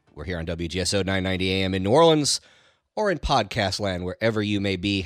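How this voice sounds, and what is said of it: Congested voice from a cold. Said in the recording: “if you can't tell by my voice, getting over a little bit of a cold ... pardon my voice here a little bit”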